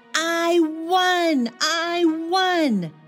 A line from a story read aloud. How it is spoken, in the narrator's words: shouted